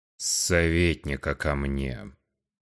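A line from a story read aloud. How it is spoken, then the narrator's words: Stern ruler's command. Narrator (Russian): Грозно распорядился правитель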